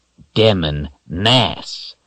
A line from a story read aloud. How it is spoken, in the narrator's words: Brophy growled again